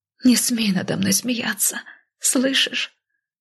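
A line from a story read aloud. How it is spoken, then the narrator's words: Tearful, through clenched teeth. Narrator (Russian): Сквозь слезы процедила я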